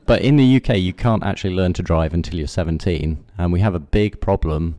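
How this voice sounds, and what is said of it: British accent. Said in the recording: “probably detected from my accent, from the UK”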